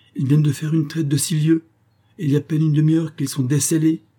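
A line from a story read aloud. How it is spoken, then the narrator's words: Exclaimed. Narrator (French): s'écria le laquais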